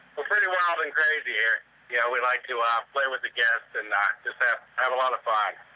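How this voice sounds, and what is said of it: Southern American accent. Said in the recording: “southern accent, I can tell”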